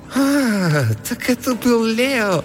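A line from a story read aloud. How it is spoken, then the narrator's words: Vague laugh. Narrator (Russian): Неопределенно рассмеялась она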